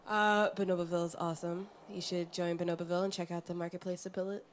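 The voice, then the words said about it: Deep radio announcer voice. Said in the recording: “I'll put on my deep radio voice. ... I think there's too much bass in her microphone now.”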